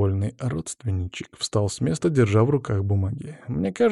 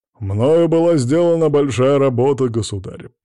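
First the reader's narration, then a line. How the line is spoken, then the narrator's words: Deep-voiced nobleman. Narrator (Russian): пробасил боярин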